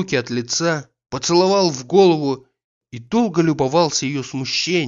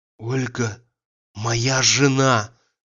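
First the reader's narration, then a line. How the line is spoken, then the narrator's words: Passionate trembling whisper. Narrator (Russian): Страстно вздрогнув, прошептал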